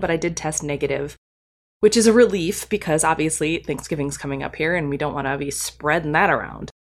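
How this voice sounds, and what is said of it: Congested voice from a head cold. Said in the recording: “you might hear it in my voice, I do have a little bit of conference crud ... I have a little bit of a head cold situation going on, a little sore throat”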